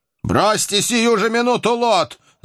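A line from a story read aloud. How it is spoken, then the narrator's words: Shout. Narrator (Russian): закричал Кап матросам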